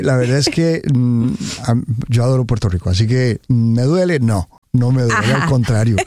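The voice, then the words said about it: Non-local Spanish accent. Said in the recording (Spanish): “con ese acento de dónde viene”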